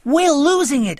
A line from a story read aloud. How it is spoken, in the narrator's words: I cried